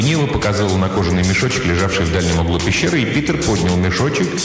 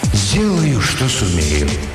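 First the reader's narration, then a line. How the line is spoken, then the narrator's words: Deep sigh, then speaking. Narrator (Russian): Ведун глубоко вздохнул и промолвил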